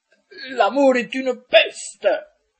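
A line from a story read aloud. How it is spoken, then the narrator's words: Thunderous voice. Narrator (French): fit-il d'une voix tonitruante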